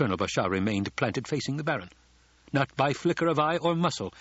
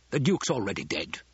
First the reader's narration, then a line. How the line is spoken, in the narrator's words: the Baron snapped